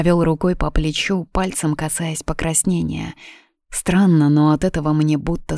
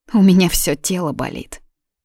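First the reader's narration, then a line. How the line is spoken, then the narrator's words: Grumbled. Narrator (Russian): буркнула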